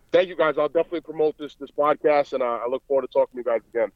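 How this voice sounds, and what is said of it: Strong Boston-like Rhode Island accent. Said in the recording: “you got that crazy Boston accent ... it's uh, unmistakable ... I'm actually from Providence, Rhode Island ... it's kind of a similar accent ... a cross between New York and, and, and Boston”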